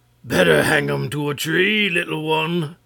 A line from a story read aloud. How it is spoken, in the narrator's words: shouted Wul Takim in his big voice